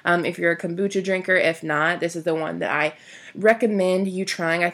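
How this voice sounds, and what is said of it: Congested voice from a cold. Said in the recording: “I do have a little bit of a cold right now. I don't know if you guys can tell in my voice.”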